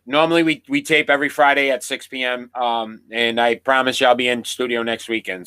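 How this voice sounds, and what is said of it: Sick, under-the-weather voice. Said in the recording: “I am under the weather today. You probably can hear it in my voice,”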